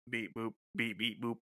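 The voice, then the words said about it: Monotone robotic voice. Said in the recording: “monotone ... the robotic episode ... Robot voice.”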